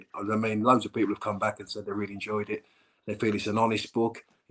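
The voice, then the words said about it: Slow drawling accent. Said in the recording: “people want to listen to my drawl”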